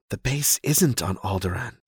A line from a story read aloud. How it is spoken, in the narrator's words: Leia says in a whisper